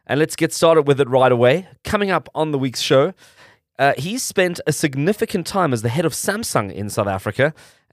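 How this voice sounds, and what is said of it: Congested, sniffly voice. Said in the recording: “As you can hear, I'm battling a bit of the seasonal change. I've got a bit of a cold”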